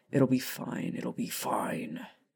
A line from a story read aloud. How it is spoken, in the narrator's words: Sirius mumbled to himself